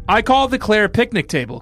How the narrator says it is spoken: Claire shouted

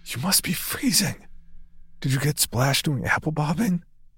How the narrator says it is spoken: whispered

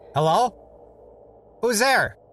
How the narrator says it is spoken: a soft, slightly nasal voice called out

